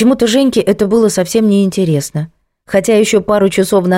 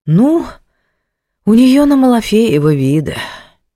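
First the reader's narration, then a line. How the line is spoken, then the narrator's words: Sighing female boss. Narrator (Russian): вздохнула начальница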